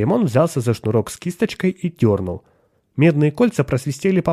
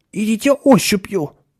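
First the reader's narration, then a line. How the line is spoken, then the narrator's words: Tense advice. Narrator (Russian): напряженным голосом посоветовал Ширин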